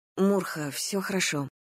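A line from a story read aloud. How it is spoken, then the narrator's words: Faltering mumble. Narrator (Russian): промямлила я, чувствуя, что меня готов предать собственный язык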